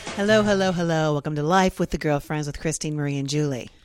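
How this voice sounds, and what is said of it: Congested, spooky horror voice. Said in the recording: “I have my horror voice on and also my sinus infection voice ... In a very scary voice”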